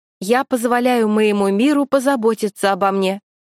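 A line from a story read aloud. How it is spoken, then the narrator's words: Loud, echoing in empty room. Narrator (Russian): сказала громко Аня Волкова, и слова ее разнеслись по пустому помещению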